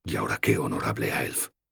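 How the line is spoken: Whispering. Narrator (Spanish): susurró Ilstan

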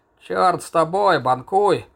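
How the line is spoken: Grumbling. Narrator (Russian): проворчал Макс Кот

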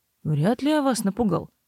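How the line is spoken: Grumbled. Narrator (Russian): проворчал Себастьян

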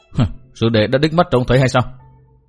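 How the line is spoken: Wry smile, asking. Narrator (Vietnamese): Cát Đà Tố cười nhạt hỏi

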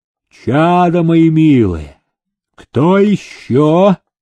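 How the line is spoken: Booming bass proclamation. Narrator (Russian): он басом провозглашал

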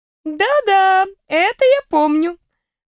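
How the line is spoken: Laughing. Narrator (Russian): почему-то рассмеялась она

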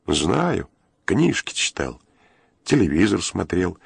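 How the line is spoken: Calm reply. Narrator (Russian): спокойно ответил турецкий, не желая вступать со своим конвоиром в спор

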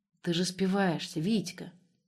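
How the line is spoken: Sad statement. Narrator (Russian): грустно констатировал Борис

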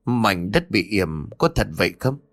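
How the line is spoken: Frightened stammering. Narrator (Vietnamese): Ông bá liền tái mặt lắp bắp rồi nói

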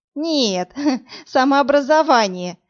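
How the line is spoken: Laughing. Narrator (Russian): засмеялась Марина

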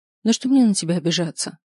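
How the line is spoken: Sighing. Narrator (Russian): вздохнула я

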